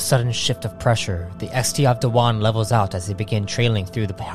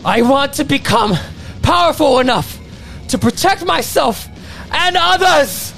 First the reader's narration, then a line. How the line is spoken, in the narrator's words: he yells out with newfound confidence